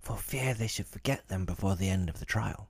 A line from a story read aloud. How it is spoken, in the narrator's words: the Gryphon whispered in reply